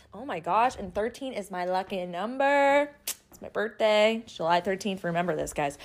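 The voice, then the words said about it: Excited, hyped-up energetic voice. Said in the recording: “can you tell I'm like hyped up on coffee right now? ... I'm feeling so good. I don't know if you can tell by how my voice is”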